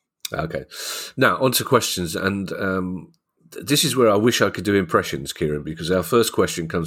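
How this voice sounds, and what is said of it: Usual voice. Nothing is said of it.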